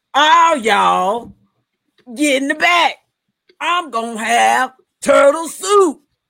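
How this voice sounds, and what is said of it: Imitates another person's voice. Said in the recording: “you're making Shredder like real black, like in a weird way ... you don't have to do a Samuel Jackson impression”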